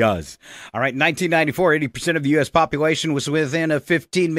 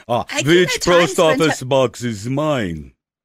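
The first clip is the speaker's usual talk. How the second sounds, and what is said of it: Attempted Russian accent. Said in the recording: “I can't do a Russian accent.”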